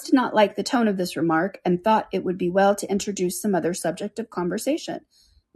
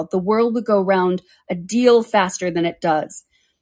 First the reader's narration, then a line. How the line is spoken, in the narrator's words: said the Duchess in a harsh growl